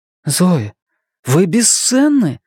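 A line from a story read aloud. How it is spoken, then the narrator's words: Sincere exclamation. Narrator (Russian): искренне воскликнула Настя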